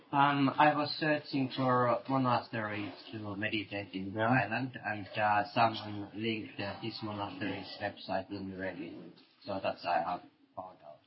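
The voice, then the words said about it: Strong accent, hard to follow. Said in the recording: “Speak slowly. I mean, and come a bit closer. ... I have to get used to your accent.”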